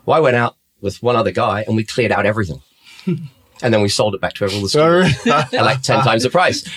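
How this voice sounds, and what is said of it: Slight Australian accent. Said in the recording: “you've got a bit of an Aussie accent”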